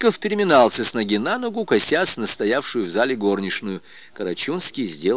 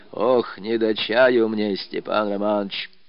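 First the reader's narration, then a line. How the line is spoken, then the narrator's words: Dejected tearful old voice. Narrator (Russian): старик проговорил упавшим голосом, в котором слышались слезы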